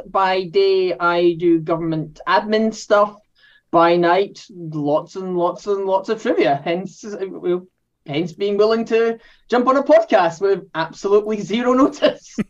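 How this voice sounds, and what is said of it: Scottish accent. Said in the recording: “If the accent doesn't give it away, I am from Scotland.”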